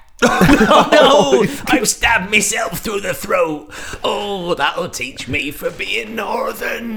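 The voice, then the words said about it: Put-on West Country accent. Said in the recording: “I'm not really northern if I've got that accent. It's more West Country, isn't it?”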